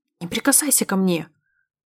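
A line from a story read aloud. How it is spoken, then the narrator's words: Irritated, through clenched teeth. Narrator (Russian): Раздраженно цыжу сквозь зубы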